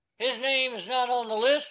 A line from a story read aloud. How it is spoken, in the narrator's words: Long shouted